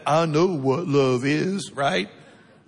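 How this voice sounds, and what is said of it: Forrest Gump impression. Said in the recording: “Did you like my Forrest Gump impersonation?”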